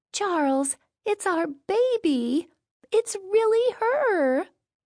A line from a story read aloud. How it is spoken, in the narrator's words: Between sobs of joy, she calls